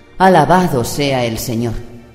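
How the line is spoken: Exclaiming. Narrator (Spanish): Julie exclamó

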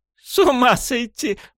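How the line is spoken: Burst out laughing. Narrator (Russian): вдруг расхохоталась

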